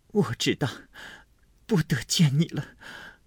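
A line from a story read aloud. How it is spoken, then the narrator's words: Choked, sobbing, broken. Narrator (Chinese): 又惊又喜，又悲又痛，哽咽了半日，方说出半句话来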